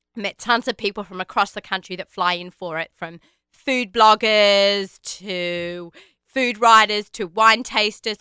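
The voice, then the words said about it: Hoarse voice. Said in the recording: “As you can hear, I'm a little bit hoarse still because it's been so busy, because Monday night really drained me.”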